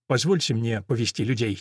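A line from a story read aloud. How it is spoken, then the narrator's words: Quiet. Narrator (Russian): тихо произносит капитан Олимпио де Кастро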